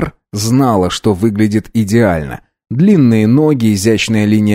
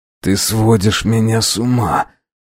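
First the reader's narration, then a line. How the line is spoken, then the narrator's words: Hoarse rasp. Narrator (Russian): прохрипел Фрейзер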